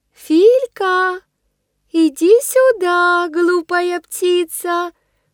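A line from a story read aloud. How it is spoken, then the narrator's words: Thin high-pitched call. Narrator (Russian): позвала она тоненьким голосом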